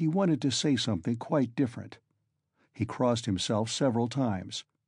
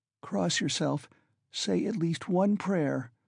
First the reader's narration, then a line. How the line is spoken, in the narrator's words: begged in a timid, broken voice